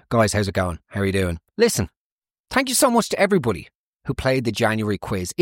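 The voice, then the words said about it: South Dublin accent. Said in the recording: “this infuriating South Dublin accent”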